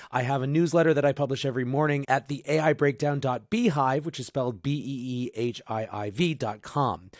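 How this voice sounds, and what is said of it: Strained, fading voice. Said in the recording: “I am losing my voice”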